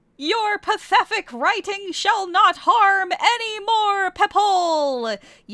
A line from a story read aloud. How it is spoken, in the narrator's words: yellowed Kelly